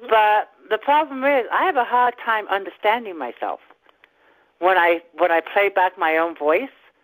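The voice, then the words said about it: Slight English accent. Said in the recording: “I'm originally from England. I do have a slight accent”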